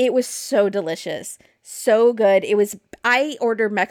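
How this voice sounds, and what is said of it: Usual voice. Nothing is said of it.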